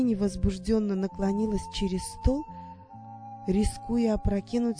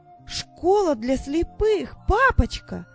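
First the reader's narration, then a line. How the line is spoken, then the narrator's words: Exclamation. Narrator (Russian): воскликнула она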